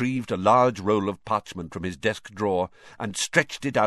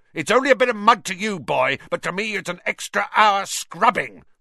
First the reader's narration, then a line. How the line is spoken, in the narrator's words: shouted Filch